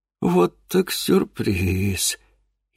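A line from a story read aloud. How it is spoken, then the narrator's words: Barely audible mutter. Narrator (Russian): Едва слышно пробормотал Геннадий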